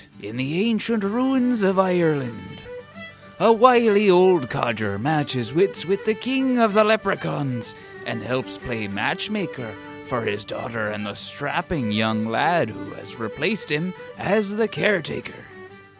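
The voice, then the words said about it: Movie-trailer voice in Irish accent. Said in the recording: “I think we should do the trailer voice ... Trailer voice. Can you do it in an Irish accent? ... Oh, I can try to do it in an Irish accent. ... That was good. That was really good.”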